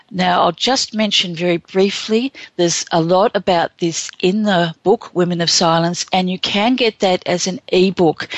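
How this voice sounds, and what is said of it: Non-American accent, tricky for Americans. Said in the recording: “I know my accent can be a little tricky at times for some of the folks there in the USA”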